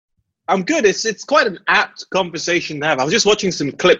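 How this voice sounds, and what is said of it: British accent. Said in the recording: “He has the best British accent”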